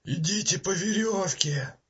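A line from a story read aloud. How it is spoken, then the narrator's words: Yelling. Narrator (Russian): Заорал Бантер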